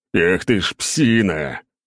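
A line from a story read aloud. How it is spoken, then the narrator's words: Growl, nearly fainting. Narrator (Russian): прорычал я, едва не потеряв сознание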